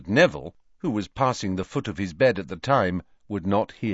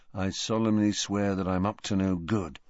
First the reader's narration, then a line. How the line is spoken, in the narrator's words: he murmured